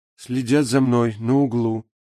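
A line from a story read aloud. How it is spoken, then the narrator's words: Barely audible rustling whisper. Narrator (Russian): еле слышно прошелестело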